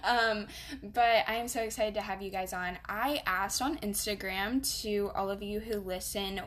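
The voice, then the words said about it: Southern US accent. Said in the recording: “by my accent, y'all can tell I'm from the South”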